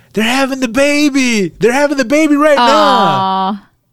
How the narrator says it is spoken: she's yelling

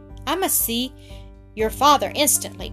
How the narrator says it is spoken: cried Miss Kimble, rising in anger

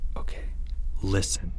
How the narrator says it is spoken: Leo whispered

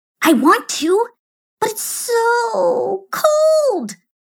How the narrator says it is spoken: whined Whinita

